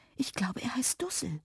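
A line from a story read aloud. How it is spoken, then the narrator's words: Quiet. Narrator (German): sagte Lilli leise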